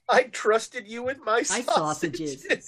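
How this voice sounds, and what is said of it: Put-on accent. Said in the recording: “That's the first time you've done an accent”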